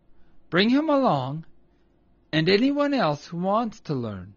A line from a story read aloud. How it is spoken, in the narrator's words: replied Old Mother Nature kindly